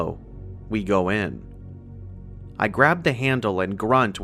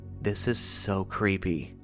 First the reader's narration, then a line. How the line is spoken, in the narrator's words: Laura murmurs